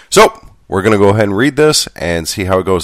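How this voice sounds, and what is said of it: Congested, sick-sounding voice. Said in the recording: “I am a sick monkey... I got germs, and they're in my nose, and they're in my chest... I don't think my voice can handle it”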